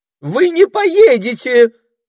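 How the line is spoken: Sudden shriek. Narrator (Russian): вдруг взвизгнула Дульчибелла

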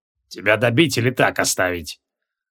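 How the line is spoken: Barely audible injured wheeze. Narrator (Russian): Еле слышно просипел изуродованный колдун

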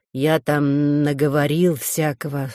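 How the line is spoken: Mumbling. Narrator (Russian): снова промямлил Толик

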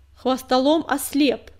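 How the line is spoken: Distinct, loud ringing voice. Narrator (Russian): отчетливо произнесла синяя звезда, и ее звенящий голос громко разнесся над притихшей поляной

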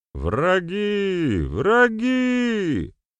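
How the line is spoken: Man shouting from afar. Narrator (Russian): закричал какой-то мужчина с опушки леса

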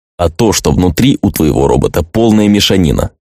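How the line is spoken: Plain. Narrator (Russian): ответил парень

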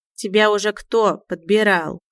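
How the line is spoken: Snort into ear. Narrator (Russian): хмыкнул ему на ухо Мяун

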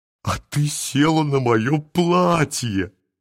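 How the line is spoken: Bursting out laughing. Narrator (Russian): Сережа расхохотался

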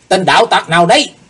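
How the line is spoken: Two men shouting together. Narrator (Vietnamese): Hai tên cao thủ đồng quát lên

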